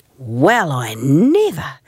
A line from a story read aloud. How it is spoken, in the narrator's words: exclaimed Celia